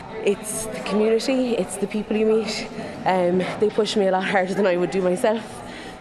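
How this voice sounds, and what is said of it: Breathless, out of breath. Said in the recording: “I'm out of breath.”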